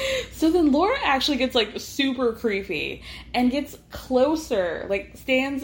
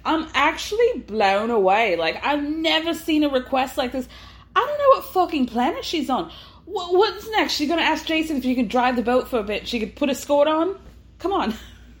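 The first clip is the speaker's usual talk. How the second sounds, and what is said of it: Unidentified put-on accent. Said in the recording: “I don't know what accent I'm doing.”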